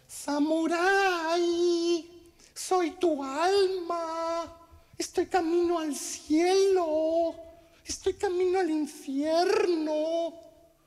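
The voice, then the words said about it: Little girl's voice. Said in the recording (Spanish): “¿Por qué mi alma tiene voz de niña?”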